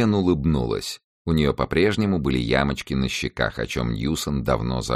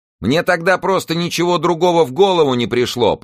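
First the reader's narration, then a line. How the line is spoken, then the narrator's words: Shouted. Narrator (Russian): прокричала она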